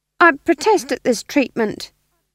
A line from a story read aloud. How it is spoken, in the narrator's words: said the demon, his voice tinged with uncertainty